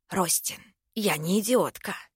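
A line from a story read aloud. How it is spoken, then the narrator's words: Hoarse young woman. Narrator (Russian): просипела девушка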